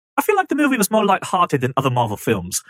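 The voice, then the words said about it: Bad put-on British accent. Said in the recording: “I will read it with the British accent ... my terrible British accent”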